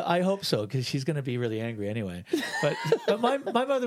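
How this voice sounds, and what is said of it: Usual voice. Nothing is said of it.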